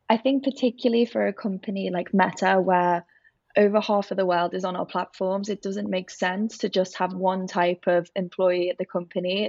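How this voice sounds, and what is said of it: Liverpool (Scouse) English accent. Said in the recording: “as you can probably guess from my accent, I'm from Liverpool”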